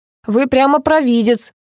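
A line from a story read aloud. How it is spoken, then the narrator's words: Snorting. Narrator (Russian): хмыкнул Илья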